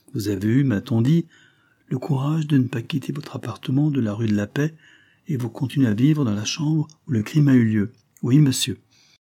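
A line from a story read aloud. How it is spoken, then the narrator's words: Exclaimed, interrupting. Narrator (French): s'écria Julia en interrompant M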